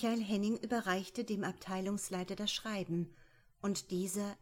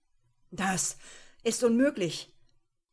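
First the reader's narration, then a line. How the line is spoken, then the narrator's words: Breathless panting. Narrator (German): keuchte Tallinger nach Luft japsend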